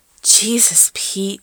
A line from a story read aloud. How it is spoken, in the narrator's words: he gasped